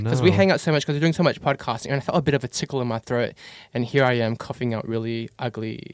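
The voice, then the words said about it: Congested, sick-sounding voice. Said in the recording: “tell by my voice, I'm quite congested”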